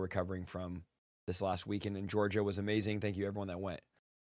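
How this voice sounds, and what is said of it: Hoarse voice that cracks. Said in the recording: “My voice is still hoarse from Sunday. I preached twice, and it's just taking time to come back. So my voice cracks. Sounds like I'm barely going through puberty ... if I raise it, it just cracks”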